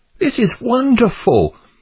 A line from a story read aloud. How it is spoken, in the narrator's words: exclaimed Pliable